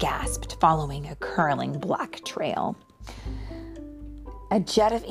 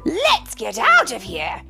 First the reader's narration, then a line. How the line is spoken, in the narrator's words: he shouted